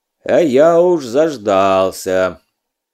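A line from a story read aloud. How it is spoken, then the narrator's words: Rich cheerful bass. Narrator (Russian): Святогор продолжал своим сочным веселым басом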